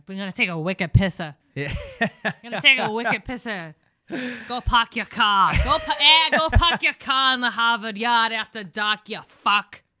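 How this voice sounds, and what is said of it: Put-on Boston accent. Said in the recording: “I'm doing more of a Boston accent,”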